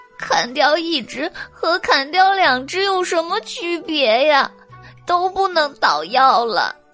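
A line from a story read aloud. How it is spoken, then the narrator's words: Crying. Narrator (Chinese): 小白兔哭道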